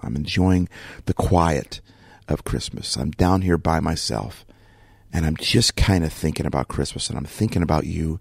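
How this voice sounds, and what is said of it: Rough, quiet morning voice. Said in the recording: “my voice is a little bit rough... I'm trying to be quiet”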